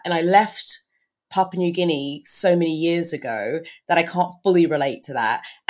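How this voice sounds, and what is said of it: British-sounding accent. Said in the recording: “I kind of sound British”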